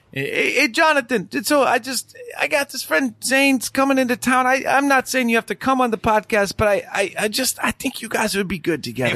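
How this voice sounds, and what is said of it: Imitates another person's voice. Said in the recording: “I have a Jack impression I've worked on, and I think I have it down.”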